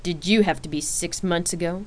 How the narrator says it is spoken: Rain snapped back with a low tone in her voice

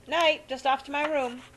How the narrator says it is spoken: He shouted

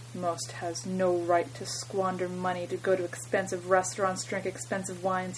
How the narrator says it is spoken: he said gravely

